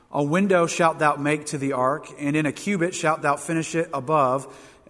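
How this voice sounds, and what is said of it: Southern accent. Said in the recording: “has a southern accent.”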